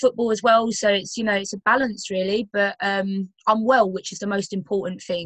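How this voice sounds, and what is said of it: London English accent. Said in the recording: “as you can tell by my accent, I'm not from, like, Yorkshire... I'm originally from London”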